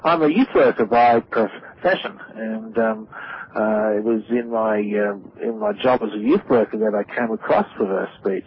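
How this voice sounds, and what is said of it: Australian accent. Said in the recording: “as you can tell from by the accent, I'm Australian”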